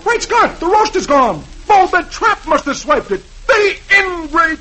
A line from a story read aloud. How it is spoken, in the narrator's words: He sees the bare table and exclaims